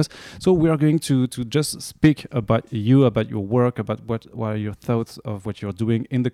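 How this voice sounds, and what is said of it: French-accented English. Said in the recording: “I'm sorry for my French accent”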